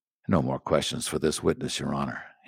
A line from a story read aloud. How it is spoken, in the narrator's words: he said grimly